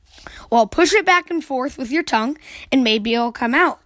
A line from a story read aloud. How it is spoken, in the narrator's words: yawned Brother